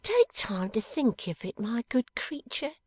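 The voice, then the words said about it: Lowered, quieter voice. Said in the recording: “in a lower voice”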